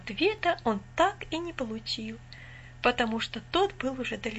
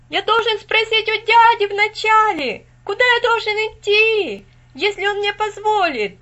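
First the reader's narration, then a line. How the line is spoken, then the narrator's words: Shouting after someone. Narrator (Russian): закричал Винзи вслед мальчику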